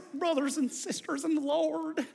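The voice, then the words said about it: Preachy televangelist voice, slight accent. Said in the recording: “with a little bit of an accent”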